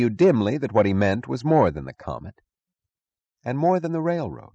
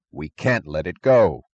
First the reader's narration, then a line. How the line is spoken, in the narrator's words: Eddie answered fiercely